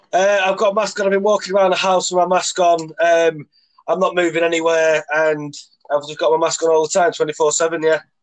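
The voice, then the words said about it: Congested, stuffy-nosed voice. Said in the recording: “I've got a little bit of a cold, ... I've got a bit of a stuffy nose.”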